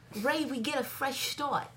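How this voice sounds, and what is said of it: Attempted Boston accent. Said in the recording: “I'm gonna try to do my Boston accent ... No, it would be like start.”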